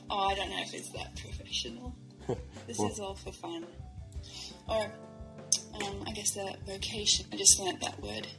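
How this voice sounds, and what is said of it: Australian accent. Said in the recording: “your accent sounds unbelievably Australian”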